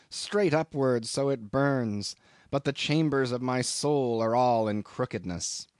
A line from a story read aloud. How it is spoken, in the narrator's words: he groans